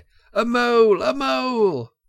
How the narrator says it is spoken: Mole, black and grim, brandishing his stick and shouting his awful war cry

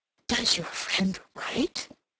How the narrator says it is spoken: inquired in a very audible whisper

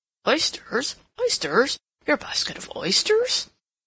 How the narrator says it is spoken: William muttering

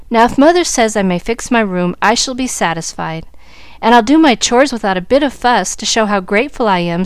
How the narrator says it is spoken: said the girl

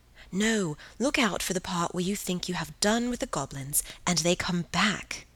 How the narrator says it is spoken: breathed Helen

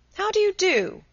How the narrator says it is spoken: he cried

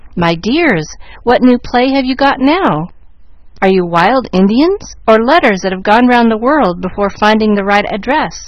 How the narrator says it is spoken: she asked, laughing at the ridiculous sight

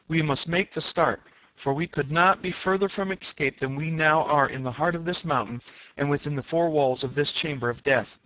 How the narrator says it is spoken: I cried

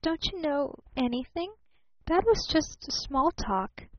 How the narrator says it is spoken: she faltered

